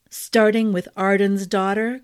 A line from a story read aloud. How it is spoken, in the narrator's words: Clancy asked, with a rumbling chuckle